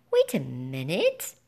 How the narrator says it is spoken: I squeaked

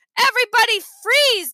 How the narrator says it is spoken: Dad shouted

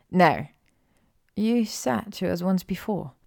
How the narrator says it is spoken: Hermione said quietly

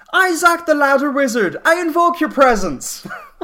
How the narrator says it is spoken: quick yell

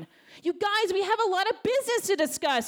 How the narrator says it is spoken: wailed Christy

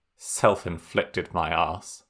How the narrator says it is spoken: he muttered, as the world went dark

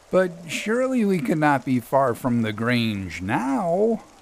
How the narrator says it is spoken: I groaned

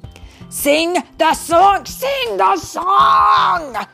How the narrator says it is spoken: shouted Anger

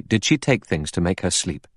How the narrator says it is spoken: The doctor said sharply

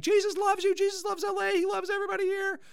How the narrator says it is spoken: he's yelling and screaming

